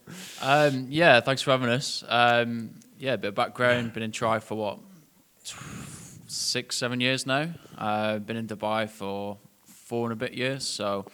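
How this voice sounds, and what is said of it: Northwest English Bolton accent. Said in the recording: “originally from the northwest of England ... That's where that accent comes from. Bolton”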